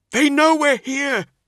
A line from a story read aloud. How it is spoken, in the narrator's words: he cried